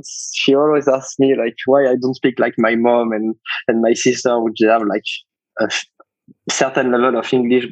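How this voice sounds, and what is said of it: French-accented English. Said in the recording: “French accent ... a strange accent for even if I'm French”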